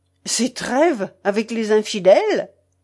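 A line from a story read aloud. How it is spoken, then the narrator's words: Abrupt interrupting exclamation. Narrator (French): s'écria-t-il, sans s'inquiéter de la manière abrupte dont il interrompait l'altier templier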